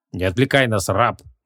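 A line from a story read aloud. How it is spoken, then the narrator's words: Menacing stern tone. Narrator (Russian): грозно нахмурился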